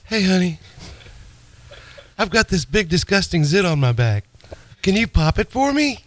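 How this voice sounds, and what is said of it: Imitates another person's voice. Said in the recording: “You do a lot of bad impersonations that are comical. You do mine.”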